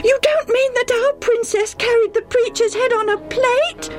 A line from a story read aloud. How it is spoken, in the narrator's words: Debbie almost screamed